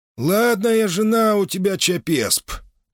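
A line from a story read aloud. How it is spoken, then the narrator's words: Creaky, muffled old voice. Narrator (Russian): проскрипел глуховатый голос, удивительно напоминавший старейшего жреца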